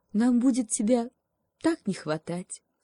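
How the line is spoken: Sad birches. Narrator (Russian): грустно качнулись березки

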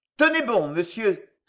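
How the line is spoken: Cold. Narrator (French): répondait froidement le chevalier

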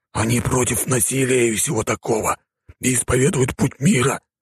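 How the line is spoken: Hissing. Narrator (Russian): снова прошипел Рафик

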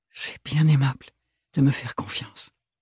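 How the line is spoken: Ashamed stammer. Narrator (French): balbutia-t-elle, honteuse de ne rien trouver de mieux à dire

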